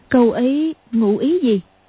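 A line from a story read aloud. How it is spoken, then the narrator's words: Surprised exclamation. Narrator (Vietnamese): ngạc nhiên kêu lên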